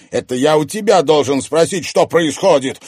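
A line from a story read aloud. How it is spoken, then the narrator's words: Angry shout. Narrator (Russian): Зло крикнул, наступая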